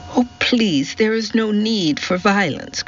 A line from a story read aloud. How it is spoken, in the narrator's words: cried Daisy